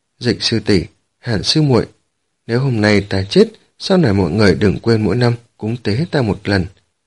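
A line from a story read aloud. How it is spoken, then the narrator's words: Sighing. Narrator (Vietnamese): Thiết Lạc Hồng thở dài một tiếng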